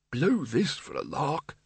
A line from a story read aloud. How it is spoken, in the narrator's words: it muttered